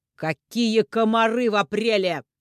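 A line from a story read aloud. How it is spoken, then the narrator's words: Booming from hallway. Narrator (Russian): Отец снова прогремел, на этот раз уже из коридора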